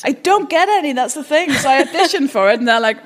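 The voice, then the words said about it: Speaks with a distinctive accent. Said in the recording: “I have this accent. I can't do any other accents. ... this exact voice and weird accent”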